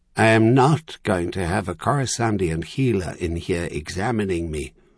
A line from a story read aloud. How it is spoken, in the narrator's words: Charlian had said flatly, sounding much more like her usual self for a moment